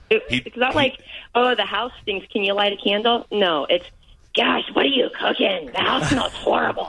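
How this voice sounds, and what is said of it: Imitates another person's voice. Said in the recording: “That is a spot-on impersonation.”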